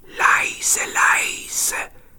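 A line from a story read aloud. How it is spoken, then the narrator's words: Whisper. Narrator (German): flüsterte Petja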